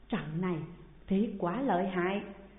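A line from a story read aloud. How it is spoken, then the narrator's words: Fearful speaking. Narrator (Vietnamese): Nam Cực coi rồi trong lòng sợ hãi mới nói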